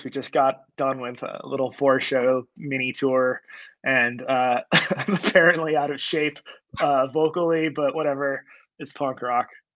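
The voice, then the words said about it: Tired, hoarse voice. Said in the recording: “I'm a little tired. I'm a little hoarse.”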